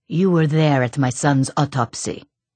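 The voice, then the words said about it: Slight Eastern European accent. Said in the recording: “Slight accent, maybe Eastern European.”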